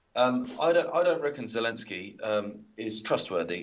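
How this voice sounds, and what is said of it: Put-on northern English accent. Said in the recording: “I don't know why I'm doing a northern accent, I'm turning into my dad.”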